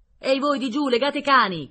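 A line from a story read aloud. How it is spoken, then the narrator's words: Shouted by several. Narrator (Italian): gridarono quelli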